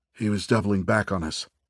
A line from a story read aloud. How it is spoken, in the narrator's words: Farkas said, now in a hushed voice